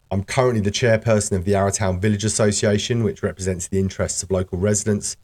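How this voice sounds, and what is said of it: British-Australian hybrid accent. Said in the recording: “My accent perhaps gives me away as not a long-term local... I'm from the UK... my slightly Anglo-Antipodean hybrid accent”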